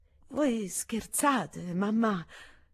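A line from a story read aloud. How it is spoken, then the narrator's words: Slightly strained voice. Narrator (Italian): rispose Anastasia con voce appena alterata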